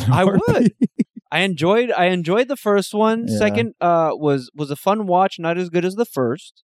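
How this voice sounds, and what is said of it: Weird put-on Swiss-like accent. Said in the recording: “You sound like you have an accent ... You had an accent like you're like from fucking like Switzerland or something ... you had like a fucking weird accent right now.”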